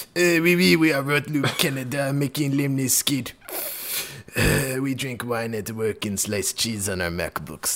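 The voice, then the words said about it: Put-on Quebecois French accent. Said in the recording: “very Quebec-focused list ... I do love doing the accent ... That's the accent”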